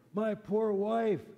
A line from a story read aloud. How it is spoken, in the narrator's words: cried out